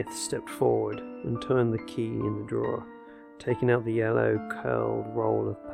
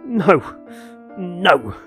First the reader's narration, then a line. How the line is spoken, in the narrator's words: shouted Bellingham